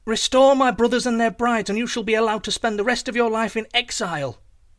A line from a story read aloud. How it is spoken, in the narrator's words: Boots called out into the church